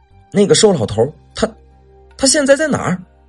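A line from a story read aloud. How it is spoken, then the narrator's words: Trembling voice asking. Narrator (Chinese): 问话的时候，蓝大伟只觉得自己的声音都在发颤了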